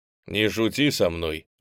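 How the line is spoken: Bark. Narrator (Russian): рявкнул Стефан

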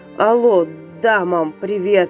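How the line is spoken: Hoarse, into phone. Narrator (Russian): прохрипел Зверев в трубку

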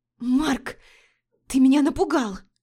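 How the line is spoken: Hoarse, sputtering. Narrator (Russian): Прохрипела, отплевываясь

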